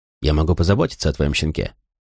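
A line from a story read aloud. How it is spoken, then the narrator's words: Dry. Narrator (Russian): сказал сухо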